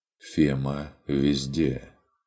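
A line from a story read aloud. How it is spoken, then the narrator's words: Quiet objection. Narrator (Russian): тихо возразил фон Эббенхольц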